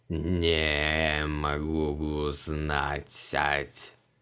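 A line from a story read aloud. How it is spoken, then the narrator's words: Creaky creature voice. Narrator (Russian): проскрипел тварь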